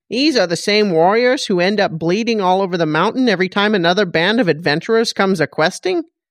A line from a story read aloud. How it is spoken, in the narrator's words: Grell snapped